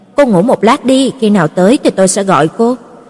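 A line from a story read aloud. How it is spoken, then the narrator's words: Quiet, gentle. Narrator (Vietnamese): Lục Lệ Thành khẽ nói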